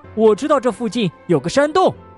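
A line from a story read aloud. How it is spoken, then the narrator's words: Urgent shout. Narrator (Chinese): 野兔急忙朝大家喊道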